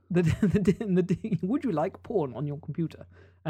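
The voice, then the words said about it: Put-on accent, Siri-like voice. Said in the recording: “I'd love that to be in that accent. ... You could be the new voice of Siri with that.”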